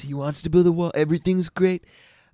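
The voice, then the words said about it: Impression of Donald Trump. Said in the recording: “Trump talks like this.”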